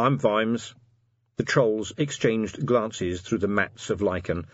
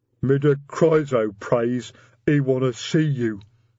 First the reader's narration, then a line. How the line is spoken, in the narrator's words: he said sulkily